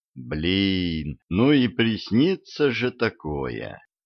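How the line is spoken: Sigh. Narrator (Russian): вздохнул я

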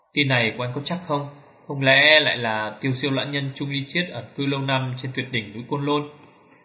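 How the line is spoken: Surprised question, old priest. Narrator (Vietnamese): thiên sĩ đạo trưởng nãy giờ chỉ mỉm cười liêm xin mắt ngồi nghe đại hán nói, lúc này cũng mở mắt ngạc nhiên hỏi

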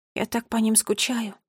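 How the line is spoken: Sad whisper. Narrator (Russian): грустно прошептала Нола

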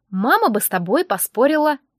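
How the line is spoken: Laughing. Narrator (Russian): Джек засмеялся

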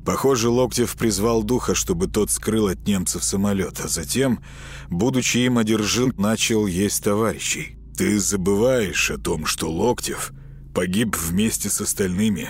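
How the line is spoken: Grim robotic objection. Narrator (Russian): мрачно возразил робот

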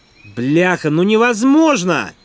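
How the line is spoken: Shouting. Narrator (Russian): Снова выкрикнул Слим

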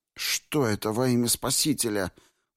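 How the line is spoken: Groaning young man. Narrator (Russian): простонал юноша

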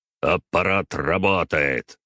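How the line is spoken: Angry, bitter bark. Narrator (Russian): рявкнул на меня преподаватель, выдавая весь свой гнев и скрытую горечь

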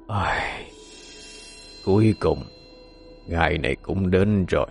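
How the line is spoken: Deep sorrowful sigh, old ancestor. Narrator (Vietnamese): lão tổ trầm mặc thở dài, âm thanh buồn bã, âm trầm vang lên

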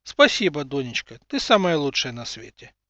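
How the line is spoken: Laughing reply. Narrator (Russian): смеясь, ответил взрывник

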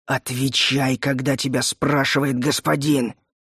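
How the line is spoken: Angry hiss. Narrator (Russian): злобно прошипел Пеннант

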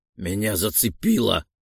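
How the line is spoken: Moaning. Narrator (Russian): простонал

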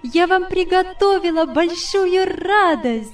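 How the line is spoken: Jubilant exclamation. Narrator (Russian): воскликнула она, ликуя

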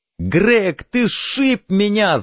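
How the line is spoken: Yelling. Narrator (Russian): завопил Донован

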